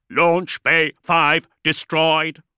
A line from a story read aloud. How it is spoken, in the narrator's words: a servitor intoned